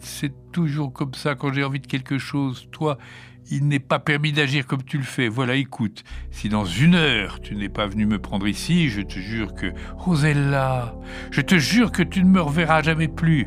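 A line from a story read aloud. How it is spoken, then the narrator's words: Child whimpering. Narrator (French): pleurnicha la petite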